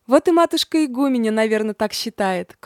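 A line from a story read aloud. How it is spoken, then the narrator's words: Meek sigh. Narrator (Russian): кротко вздохнула мать Евдокия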